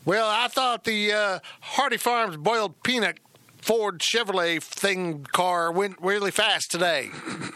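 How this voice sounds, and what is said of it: Put-on Southern American accent. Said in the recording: “he's got that sexy Southern accent”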